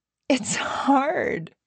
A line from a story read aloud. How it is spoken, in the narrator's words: she gasped